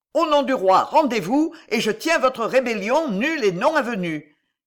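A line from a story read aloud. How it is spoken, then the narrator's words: Overwhelmed emotional shout. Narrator (French): cria le capitaine avec une émotion dont il ne fut pas maître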